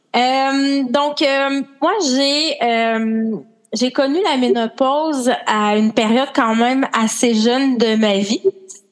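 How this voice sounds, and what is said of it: Québécois French accent. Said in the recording (French): “On va deviner par ton accent d'où tu viens ... je suis une Québécoise avec mon accent”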